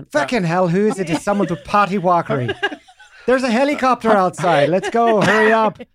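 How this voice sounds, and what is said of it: Put-on Irish accent. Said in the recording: “can you try an Irish accent? ... You've captured her timbre perfectly.”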